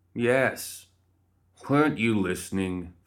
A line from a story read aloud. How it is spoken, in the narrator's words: Philip groaned